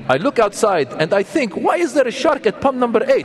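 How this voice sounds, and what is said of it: Put-on Jordanian accent. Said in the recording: “that's a Jordanian accent”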